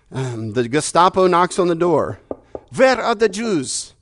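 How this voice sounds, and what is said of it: Put-on German accent. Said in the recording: “That's my German accent.”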